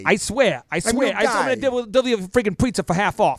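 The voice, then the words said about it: Put-on New York accent with attitude. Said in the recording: “Give me a little bit of New York. You know, a little attitude.”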